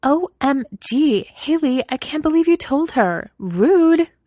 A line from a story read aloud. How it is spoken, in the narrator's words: Mina snapped indignantly